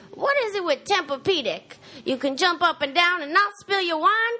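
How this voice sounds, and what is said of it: Wanda Sykes impression. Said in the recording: “Give us like, a Wanda.”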